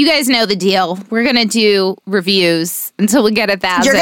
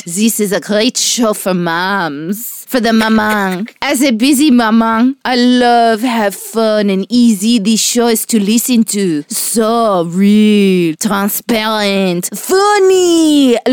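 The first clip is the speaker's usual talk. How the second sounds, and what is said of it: Put-on French accent. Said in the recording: “what kind of voice are you wanting today? ... French, because she's fashionable.”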